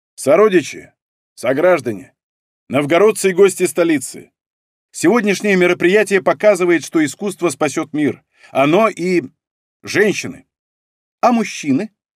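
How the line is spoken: Mischievous young woman's shout. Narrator (Russian): Озорно выкрикнула какая-то молоденькая журналисточка

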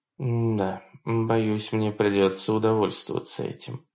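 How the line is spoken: Sighing. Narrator (Russian): вздохнула Мацука

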